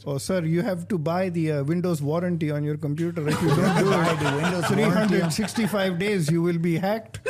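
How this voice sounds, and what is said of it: Put-on Indian accent. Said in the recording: “do Indian accent ... Do the Indian accent ... Indian accent first”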